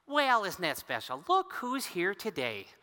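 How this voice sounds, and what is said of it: Church lady character voice. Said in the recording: “my best impression of the church lady”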